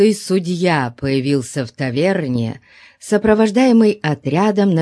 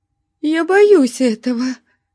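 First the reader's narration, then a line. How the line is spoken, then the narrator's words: Whimpering woman. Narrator (Russian): захныкала женщина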